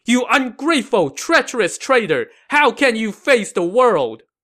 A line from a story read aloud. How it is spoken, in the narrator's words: He shouted back